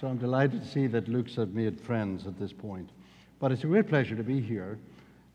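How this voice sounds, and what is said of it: Irish accent. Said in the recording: “I'm from the south of the north of Ireland ... my Irish accent”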